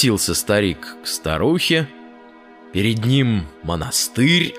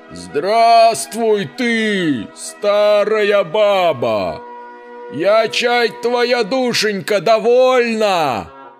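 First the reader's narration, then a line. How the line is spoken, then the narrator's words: Loud shout. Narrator (Russian): Закричал он голосом громким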